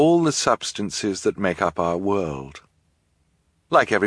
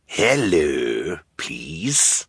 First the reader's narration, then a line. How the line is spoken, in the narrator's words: Count Olaf said in his raspy voice